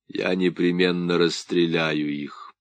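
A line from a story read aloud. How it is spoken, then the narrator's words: Calm, even, dispassionate voice. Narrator (Russian): командир дивизии заявил ровным, спокойным, почти бесстрастным голосом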